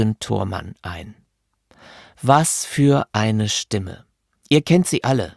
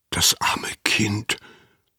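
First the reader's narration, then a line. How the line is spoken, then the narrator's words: Whispered. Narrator (German): flüsterte Anna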